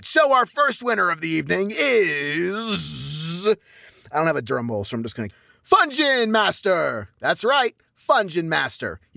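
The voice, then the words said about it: Booming announcer voice. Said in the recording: “I'm using my announcer voice.”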